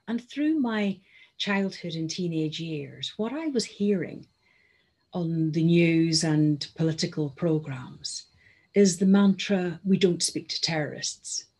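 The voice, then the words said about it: Northern Irish accent. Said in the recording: “You'll have gathered from my accent that I am originally from Northern Ireland and brought up there.”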